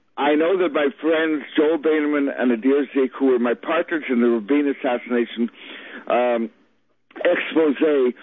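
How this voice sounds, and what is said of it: Audibly impaired speech. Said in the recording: “You can even hear the stroke in my voice now.”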